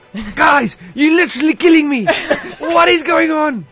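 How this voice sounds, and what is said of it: Impression of an angry coach. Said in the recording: “your best Coach Derek impression when he's angry”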